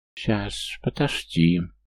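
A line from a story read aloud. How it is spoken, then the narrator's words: Joyful lisping lizard. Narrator (Russian): даже зашепелявил ящер от радости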